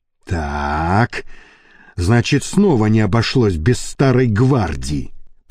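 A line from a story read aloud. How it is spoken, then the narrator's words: Through gritted teeth. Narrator (Russian): процедил сквозь зубы Леонид Борисович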